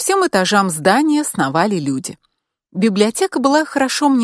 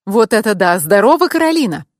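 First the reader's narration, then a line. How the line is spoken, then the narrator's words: Cheerful exclamation. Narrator (Russian): весело воскликнул он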